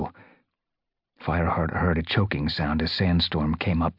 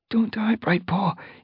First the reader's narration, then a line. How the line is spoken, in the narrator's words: he begged